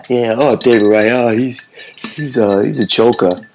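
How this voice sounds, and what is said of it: Put-on New York accent. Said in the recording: “your New York accent's not bad... Pretty good mook.”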